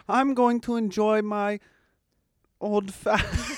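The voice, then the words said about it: Attempted British accent. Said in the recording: “I'm British and I'm sitting there going ... I can't do the accent ... You tried”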